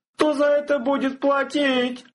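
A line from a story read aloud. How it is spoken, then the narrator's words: Shouting from hiding. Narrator (Russian): закричал трактирщик, спрятавшийся за стойкой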